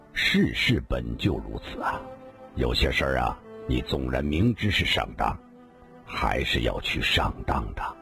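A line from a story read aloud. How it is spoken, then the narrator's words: Calm, light smile. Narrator (Chinese): 李寻欢笑了笑，淡淡的说道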